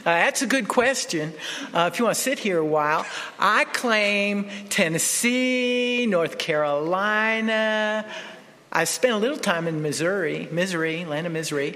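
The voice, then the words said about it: Southern American accent. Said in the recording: “Where's the accent? ... my southern accent”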